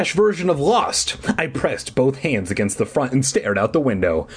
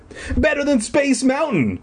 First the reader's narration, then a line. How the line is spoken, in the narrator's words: Elliot exclaimed